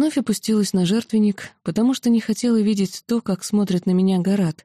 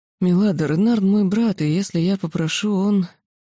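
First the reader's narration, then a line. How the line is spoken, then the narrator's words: Muffled, hollow voice. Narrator (Russian): владыка глухо произнес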